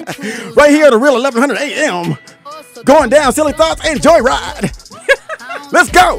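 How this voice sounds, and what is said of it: Cheesy club DJ radio voice. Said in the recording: “I gotta go to my club voice ... You actually sound pretty good ... That's the only radio voice I could do. The crappy club DJ voice.”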